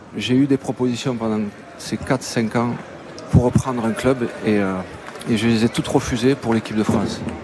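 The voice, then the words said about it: A regional French accent. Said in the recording (French): “Et sa voix aussi, et cet accent que tous les Français aiment tant.”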